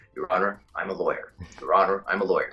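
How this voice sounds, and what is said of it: Put-on American accent. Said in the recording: “the American accent sits, like, in my mouth differently and in my chest differently”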